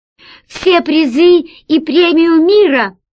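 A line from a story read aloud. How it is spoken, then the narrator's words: Shout. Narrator (Russian): крикнул Герман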